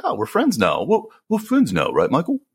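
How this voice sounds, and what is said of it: Poor imitation of English accent. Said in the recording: “That's my best Paul McCartney accent. God, that was awful. That was awful.”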